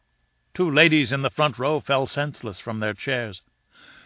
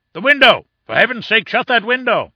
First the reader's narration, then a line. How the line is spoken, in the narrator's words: roared the professor, in an agony of apprehension